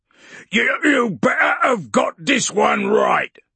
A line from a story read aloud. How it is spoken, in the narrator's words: he snarled